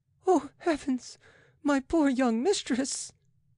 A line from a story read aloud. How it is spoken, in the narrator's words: she sobbed